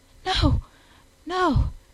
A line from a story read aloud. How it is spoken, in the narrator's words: panted